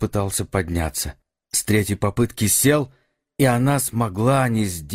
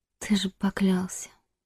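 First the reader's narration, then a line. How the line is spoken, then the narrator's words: Whispered. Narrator (Russian): прошептала она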